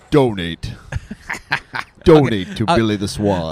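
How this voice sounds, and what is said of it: Exaggerated radio announcer voice. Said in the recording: “I'll use my power of the radio voice.”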